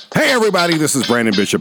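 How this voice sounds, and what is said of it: Loud yelling greeting. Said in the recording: “that was loud. Why am I yelling at you already?”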